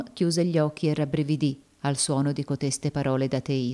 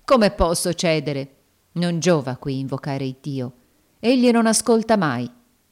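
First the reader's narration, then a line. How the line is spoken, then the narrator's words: Firm woman's voice. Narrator (Italian): disse la donna con voce ferma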